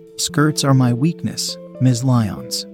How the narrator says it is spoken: he said

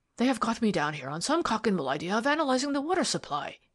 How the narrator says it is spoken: he exclaimed

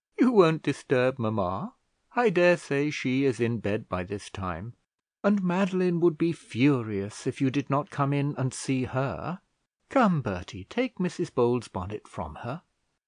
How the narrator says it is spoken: said Charlotte, laughing

